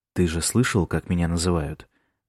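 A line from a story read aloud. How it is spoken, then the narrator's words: Whisper right in ear. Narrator (Russian): Прошептал прямо в ухо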